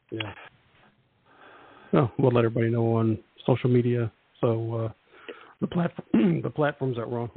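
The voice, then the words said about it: Strained, fading hoarse voice. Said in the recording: “Wow, I'm losing my voice ... It's that time of the week where I lose my voice”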